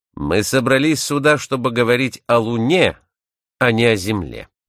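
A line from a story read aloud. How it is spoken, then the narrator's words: Stern voice. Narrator (Russian): он повторил свои слова тем же суровым голосом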